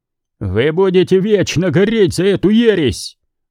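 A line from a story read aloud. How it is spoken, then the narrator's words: Roaring preacher. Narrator (Russian): взревел проповедник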